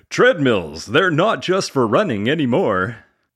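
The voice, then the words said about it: Cheesy FM radio announcer voice. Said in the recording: “cheesy FM radio announcer voice”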